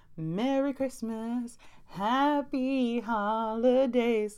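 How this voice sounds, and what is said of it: Sung in a boy band style. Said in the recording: “In my best NSYNC voice ... I'm not a singer”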